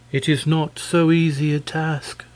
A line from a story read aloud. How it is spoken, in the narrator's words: answered, sighing